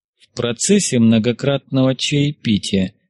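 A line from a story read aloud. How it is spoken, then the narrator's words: Quiet. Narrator (Russian): негромко проговорил он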